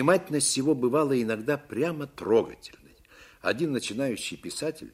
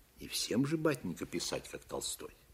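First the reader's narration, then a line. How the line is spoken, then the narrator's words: Calm and serious. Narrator (Russian): Он отвечал спокойно и серьезно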